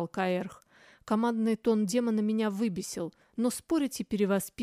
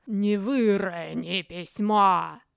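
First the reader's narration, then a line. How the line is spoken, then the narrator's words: Muffled growling voice. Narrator (Russian): прозвучали глухо и рычаще, потому что Каэрх начал перевоплощаться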